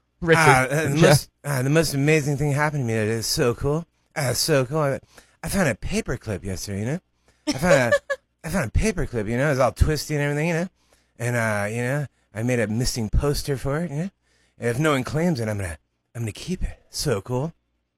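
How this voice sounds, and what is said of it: Imitates a celebrity's voice. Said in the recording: “He's going to do an impression, Lisa, and you have to guess what celebrity impression that is”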